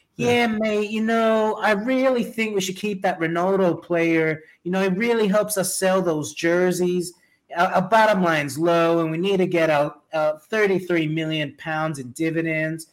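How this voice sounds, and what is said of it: Poor put-on Floridian accent. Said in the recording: “Terrible Floridian accent”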